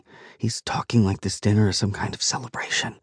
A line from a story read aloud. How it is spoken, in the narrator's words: she whispers